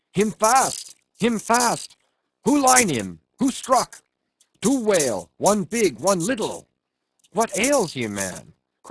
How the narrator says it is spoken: cried Starbuck

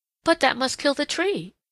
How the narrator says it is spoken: exclaimed Peter Rabbit

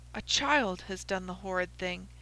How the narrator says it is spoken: I said in a whisper

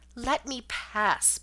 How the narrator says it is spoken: pleaded a voice I knew

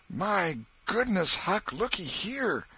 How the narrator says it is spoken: Tom exclaimed

